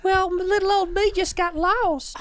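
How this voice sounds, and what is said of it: Put-on southern accent. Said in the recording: “southern accent”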